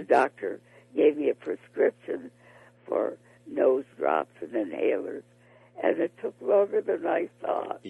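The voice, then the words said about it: Hoarse, lower-pitched voice. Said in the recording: “my voice isn't as high as it usually is. It's kind of hoarse”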